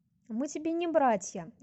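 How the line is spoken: Very dry reply. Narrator (Russian): весьма сухо отреагировала Рангу

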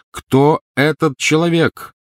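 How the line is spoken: Loud repetition. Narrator (Russian): громко повторил он

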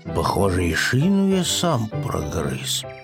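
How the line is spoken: Upset mutter. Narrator (Russian): пробормотал расстроенный Пэтсон

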